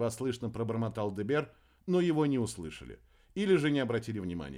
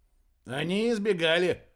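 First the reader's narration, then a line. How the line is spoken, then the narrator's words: Snorting sickle. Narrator (Russian): хмыкнул серп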